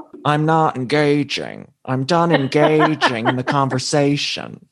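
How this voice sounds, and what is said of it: Impression of Meredith. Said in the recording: “being such a good sport about my impression ... can we get one before I go? ... it's so good.”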